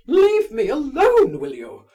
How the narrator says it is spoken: she cried violently

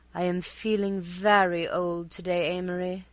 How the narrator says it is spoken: she would sigh, her face a rare cameo of pathos, her voice exquisitely modulated

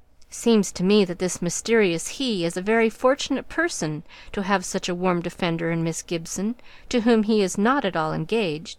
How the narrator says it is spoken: said Mr

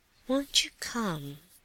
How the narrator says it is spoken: asked the prince in a gentle voice

